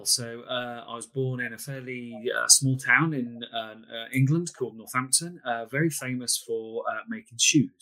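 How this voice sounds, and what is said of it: British English accent. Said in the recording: “He's got an accent, so he is ... from across the pond.”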